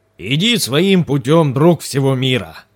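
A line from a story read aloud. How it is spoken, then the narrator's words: Booming old warrior. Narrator (Russian): прогремел старый воин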